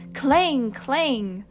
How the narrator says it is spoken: whenever she came to the word, she shouted out

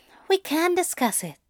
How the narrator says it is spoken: Zira sighed

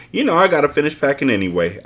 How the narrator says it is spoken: I giggled playfully

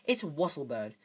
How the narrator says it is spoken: said Hermione impatiently

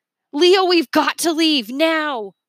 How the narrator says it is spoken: shouted

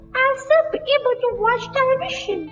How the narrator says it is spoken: squeaked the tiny voice of Mike Thievy

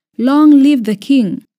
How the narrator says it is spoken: the people shouted

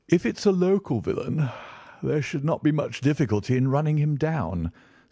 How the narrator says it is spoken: said Holmes with a yawn

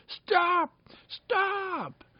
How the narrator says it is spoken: shouted Peter in rage, shouting

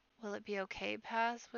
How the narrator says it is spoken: whispered Podkin, who has always been in awe of his tall, powerful father

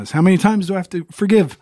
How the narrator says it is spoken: Peter cried out

